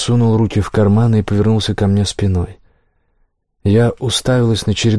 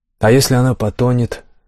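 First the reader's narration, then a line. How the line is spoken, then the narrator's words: Plain. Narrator (Russian): спросила я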